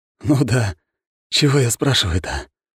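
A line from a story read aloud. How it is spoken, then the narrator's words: Sighing. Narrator (Russian): вздохнул следователь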